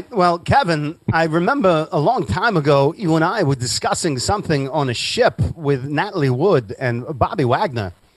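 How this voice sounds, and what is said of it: Christopher Walken impression. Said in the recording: “my Christopher Walken impersonation”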